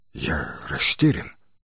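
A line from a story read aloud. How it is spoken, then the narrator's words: Quiet. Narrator (Russian): тихо произнес Джейсон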